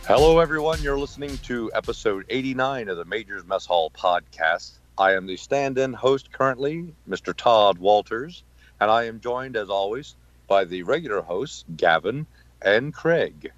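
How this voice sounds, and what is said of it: Good radio voice. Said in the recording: “you have a very good radio voice.”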